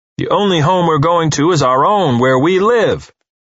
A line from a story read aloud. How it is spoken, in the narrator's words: Uwe roared at her